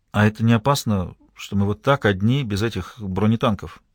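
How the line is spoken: Quiet question. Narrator (Russian): Лишь один раз она тихонько спросила

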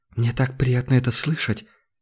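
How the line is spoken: Girl's quiet reply. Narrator (Russian): тихо отозвалась девушка

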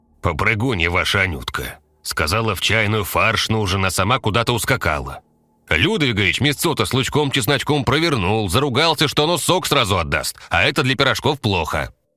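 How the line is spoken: Big man's booming bass. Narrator (Russian): здоровенный мужик забасил

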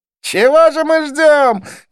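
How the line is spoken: Shout. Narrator (Russian): крикнул Близнец

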